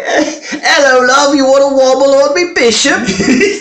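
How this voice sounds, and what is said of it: Put-on Cockney accent. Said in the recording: “Really cockney. ... this is a cockney accent.”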